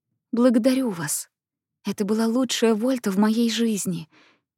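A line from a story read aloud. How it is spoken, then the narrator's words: Quiet. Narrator (Russian): тихо сказала она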